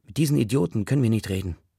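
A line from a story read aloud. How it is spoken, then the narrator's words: Plain. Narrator (German): sagt Paris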